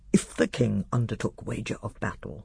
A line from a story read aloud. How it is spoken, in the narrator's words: whispered Glozell